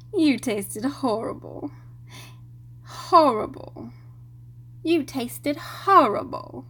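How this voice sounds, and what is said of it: Bad Hermione impression. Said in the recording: “Trying to channel my inner Hermione. ... that was the worst Hermione impression ever.”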